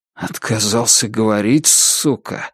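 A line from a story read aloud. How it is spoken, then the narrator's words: Muttered. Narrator (Russian): пробормотал Вик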